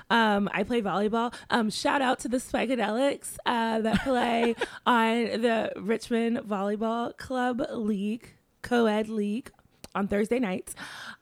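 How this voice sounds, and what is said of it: Hoarse, strained voice. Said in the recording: “my voice sounds, like, really weird ... I screamed my head off at the game, and so I'm a little hoarse now.”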